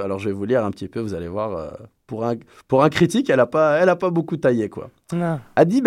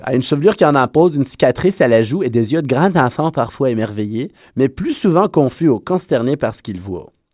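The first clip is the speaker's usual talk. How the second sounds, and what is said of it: Put-on local accent. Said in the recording (French): “je me mets dans l'accent local.”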